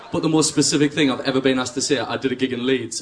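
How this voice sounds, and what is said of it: Strong regional accent. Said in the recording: “have you got a strong accent, aye?”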